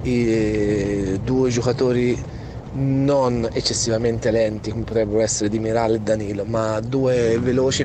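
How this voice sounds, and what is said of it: Strong Tuscan Italian accent. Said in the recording (Italian): “con questo accento toscanissimo”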